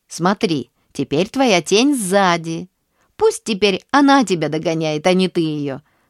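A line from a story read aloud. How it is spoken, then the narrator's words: Laughing. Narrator (Russian): засмеялся Алёша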